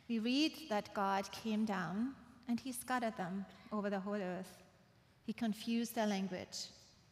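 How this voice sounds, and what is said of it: Speaks with a noticeable accent. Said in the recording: “That's why I have an accent.”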